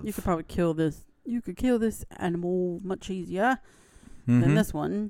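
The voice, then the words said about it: Bad put-on Australian accent. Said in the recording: “That was a bad Aussie accent.”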